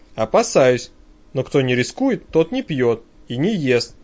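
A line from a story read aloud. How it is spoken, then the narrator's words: Calm but tense reply. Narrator (Russian): довольно спокойно отвечает напрягшийся парень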